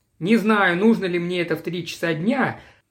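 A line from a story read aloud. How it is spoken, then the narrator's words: Ungrateful tone. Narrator (Russian): без тени благодарности в голосе сказал он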